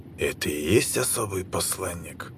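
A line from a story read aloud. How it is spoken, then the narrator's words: Whisper from behind. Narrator (Russian): шепот за своей спиной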